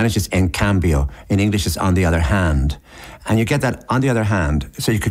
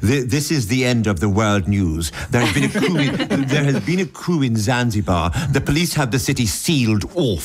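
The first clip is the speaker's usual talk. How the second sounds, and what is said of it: Put-on English newsreader accent. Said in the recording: “I want to do this in an English accent, because it seems to attempt to establish an authority over the material, which I associate with a certain sort of Englishness, reading the news”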